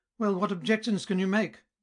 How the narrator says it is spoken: cried Friedrich

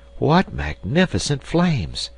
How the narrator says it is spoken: exclaimed Herbert

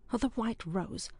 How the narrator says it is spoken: broke in a gentle voice from the doorway

